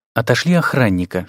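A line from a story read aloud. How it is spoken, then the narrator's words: Whisper. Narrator (Russian): шепнул Дарентеллу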